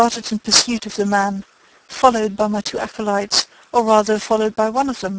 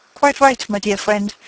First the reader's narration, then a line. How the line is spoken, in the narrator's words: I said